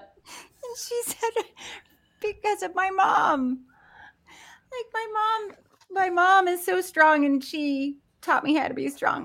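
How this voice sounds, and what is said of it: Voice cracking with emotion. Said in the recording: “my voice cracking”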